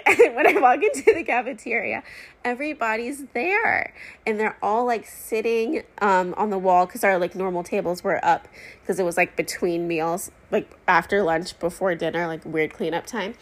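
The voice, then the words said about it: Emotional, tearful voice. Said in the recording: “I don't know why I'm getting emotional.”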